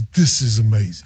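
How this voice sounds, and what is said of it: Imitates another person's voice. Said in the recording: “That's my Milan impersonation.”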